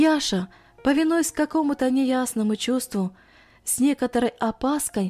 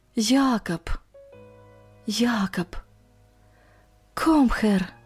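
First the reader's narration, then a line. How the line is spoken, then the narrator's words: Barely audible whisper. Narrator (Russian): Иван, чуть слышно шепча по-немецки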